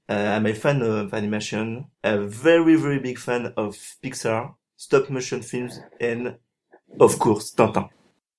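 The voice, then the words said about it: French accent in English. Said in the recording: “I live in France, as you can probably hear from my accent.”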